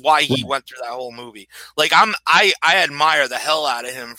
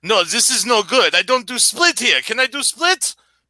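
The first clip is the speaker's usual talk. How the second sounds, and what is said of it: Put-on Russian Belgian accent. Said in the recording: “I like your uh, Russian Belgian accent”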